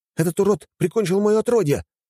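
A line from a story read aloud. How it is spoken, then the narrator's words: Shouting. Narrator (Russian): закричал я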